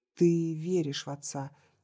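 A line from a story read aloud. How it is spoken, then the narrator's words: Quiet. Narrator (Russian): тихо сказала Анна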